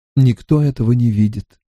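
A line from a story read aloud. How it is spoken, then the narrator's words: Sighing. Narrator (Russian): сообщил Стрэндж, вздохнув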